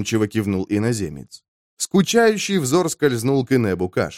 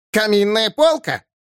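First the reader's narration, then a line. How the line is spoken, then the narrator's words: Furious demon's shriek. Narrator (Russian): яростно взвизгнул демон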